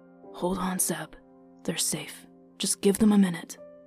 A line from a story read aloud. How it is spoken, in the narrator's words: Kirik whispered